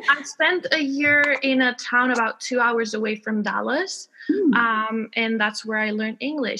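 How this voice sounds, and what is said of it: Slight American accent in English. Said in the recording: “You might hear a bit of an American accent because I learned English in Texas ... I don't have a British accent that you'd expect”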